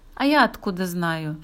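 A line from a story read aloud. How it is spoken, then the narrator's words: Snorting. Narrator (Russian): фыркнула Алина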